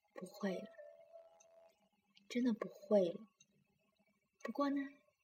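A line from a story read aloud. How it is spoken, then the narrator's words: Gentle mother. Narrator (Chinese): 妈妈很温柔的说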